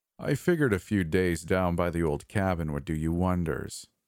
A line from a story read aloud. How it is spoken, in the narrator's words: he said